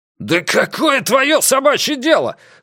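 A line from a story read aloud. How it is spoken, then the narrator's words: Roaring. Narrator (Russian): взревел Рокки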